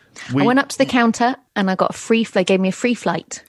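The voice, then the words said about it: British accent. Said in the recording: “We love your British accent ... we love your voice”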